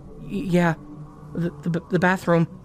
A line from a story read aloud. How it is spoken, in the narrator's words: Billy stuttered